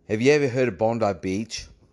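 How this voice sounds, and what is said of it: Put-on Australian accent. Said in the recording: “Let's try an Australian accent.”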